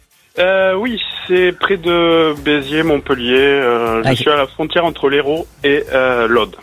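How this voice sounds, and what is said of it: Hérault regional French accent. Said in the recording (French): “Vous avez un joli accent. C'est quoi? C'est l'Hérault?”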